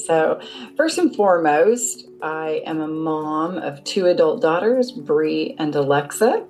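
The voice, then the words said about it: American accent. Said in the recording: “which throws people off when they hear my accent ... I'm originally from Seattle”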